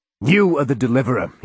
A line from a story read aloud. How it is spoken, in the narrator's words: he shouted